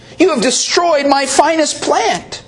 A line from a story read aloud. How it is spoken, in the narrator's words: When the gardener saw what the little girl had done, he exclaimed